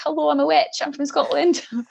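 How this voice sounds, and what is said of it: Put-on, unconvincing Scottish accent. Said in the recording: “in a terrible Scottish accent ... But like, terrible, like, as in Scottish people would be like, you're supposed to be from Scotland ... that wasn't too bad, actually, to be fair.”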